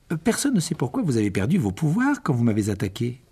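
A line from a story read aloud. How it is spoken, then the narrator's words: Abrupt. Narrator (French): dit Harry d'un ton abrupt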